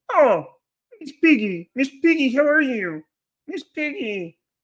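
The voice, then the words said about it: High-pitched puppet character voice. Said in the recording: “Kermit kind of talks like this. Kermit has a little high voice.”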